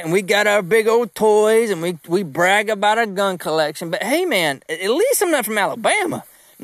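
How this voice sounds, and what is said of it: Southern US country accent. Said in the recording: “Georgia country ... you hear a country accent in the way I talk”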